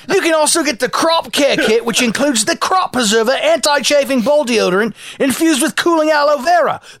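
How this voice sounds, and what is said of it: Put-on Australian accent. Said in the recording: “Can we do this in Australian accent, please?”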